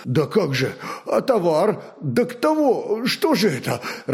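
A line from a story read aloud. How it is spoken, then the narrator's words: Confused muttering. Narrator (Russian): Растерянно забормотал Зуй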